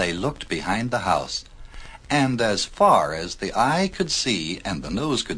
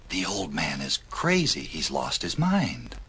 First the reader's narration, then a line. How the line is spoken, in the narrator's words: The people whispered among themselves